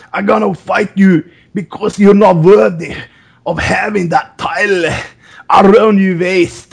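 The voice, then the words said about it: Attempted Northern English accent. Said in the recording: “Now you sound like Arnold Schwarzenegger. ... It's tough to do that English Northern accent because it's so fucking tough and difficult.”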